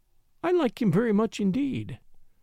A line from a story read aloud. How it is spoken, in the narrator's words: said warmly